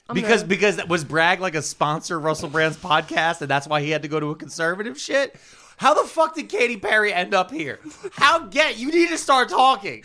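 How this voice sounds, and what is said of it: Yelling. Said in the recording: “You keep yelling.”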